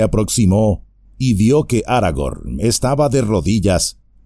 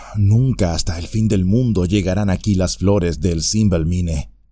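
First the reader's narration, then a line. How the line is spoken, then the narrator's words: Murmur. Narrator (Spanish): murmuró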